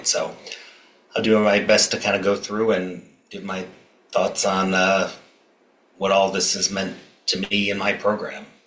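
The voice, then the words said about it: Generic American accent. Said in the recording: “which is probably obvious from my accent, I'm an American ... become a little more generic American accented”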